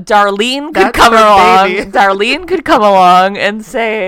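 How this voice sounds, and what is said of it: Usual voice. Nothing is said of it.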